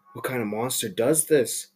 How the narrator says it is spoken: whispered

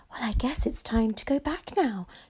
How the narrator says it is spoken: she sighed

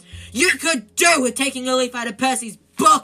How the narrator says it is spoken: yelled Mrs

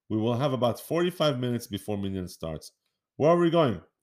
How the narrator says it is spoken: asked Rumi

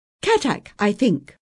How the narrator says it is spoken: he said quickly

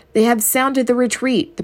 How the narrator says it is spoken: the brave queen cried

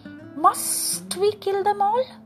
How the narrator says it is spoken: Nag hissed back

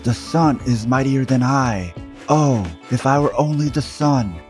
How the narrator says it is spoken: He cried in his anger

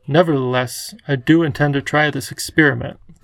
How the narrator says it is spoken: was quietly adamant

